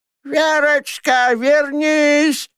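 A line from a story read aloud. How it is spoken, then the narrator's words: Shouting after cat. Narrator (Russian): кричала она удирающей кошке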